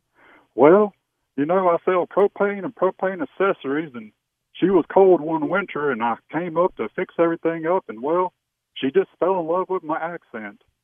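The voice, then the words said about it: Imitates a cartoon character's Texan drawl. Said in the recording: “sounded just like Hank Hill”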